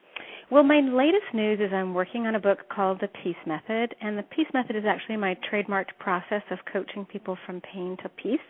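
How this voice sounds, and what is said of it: Mild Canadian accent. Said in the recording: “I hear a little bit of your Canadian accent ... My Canadian accent comes pretty strong ... it's normally a little bit more transparent ... I've got that Canadian accent.”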